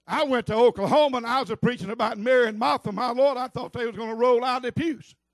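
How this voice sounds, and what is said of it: Southern US accent, rolled R's. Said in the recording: “this is just Southern talk, y'all. ... I've got a Southern accent. ... And I roll my R's.”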